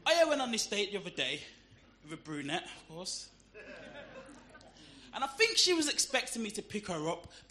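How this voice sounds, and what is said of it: Birmingham accent. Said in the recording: “Try dating with a Birmingham accent... It was voted the worst accent in the world... people'd rather have chlamydia than the Birmingham accent... I'm living proof it's not that bad having both”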